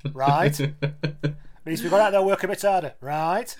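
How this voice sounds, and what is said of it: Andy Farrell impression, team-talk accent. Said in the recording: “shouted at in a slightly different accent ... Have you ever heard him do the team talk, Farrell?”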